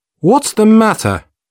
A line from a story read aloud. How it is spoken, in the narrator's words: asked sharply